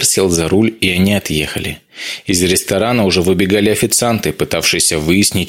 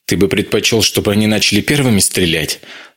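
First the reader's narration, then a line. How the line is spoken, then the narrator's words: Angry, breathless. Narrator (Russian): зло бросил тяжело дышавший Вайдеманис, все еще не пришедший в себя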